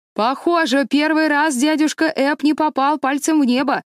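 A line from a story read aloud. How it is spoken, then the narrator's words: Shouted. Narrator (Russian): крикнул он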